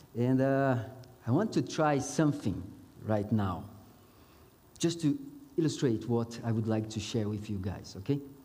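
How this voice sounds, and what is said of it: Mixed Brazilian, Mozambican, South African accent. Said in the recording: “my accent, it's a mix of Brazilian, Mozambique, and now South Africa”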